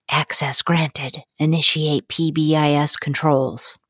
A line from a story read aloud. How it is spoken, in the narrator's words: whisper